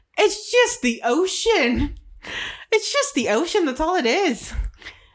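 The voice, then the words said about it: Slips into an Irish accent. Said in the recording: “I got an Irish accent there for a second”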